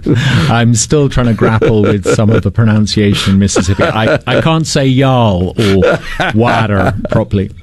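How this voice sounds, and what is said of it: Non-Mississippian accent. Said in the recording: “if folks couldn't tell from your accent, not a native Mississippian”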